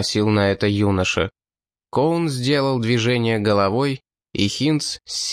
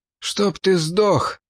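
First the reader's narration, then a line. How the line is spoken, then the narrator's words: Forced out. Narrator (Russian): выдавил Ридли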